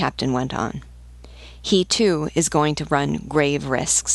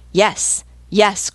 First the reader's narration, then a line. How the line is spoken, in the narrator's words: cried the voices of the whole crew